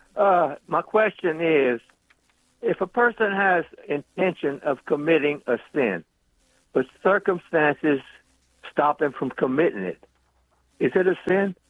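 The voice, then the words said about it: Louisiana Cajun accent. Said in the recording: “do I hear Lafayette or Crowley in your accent? ... Lafayette, built by Louisiana.”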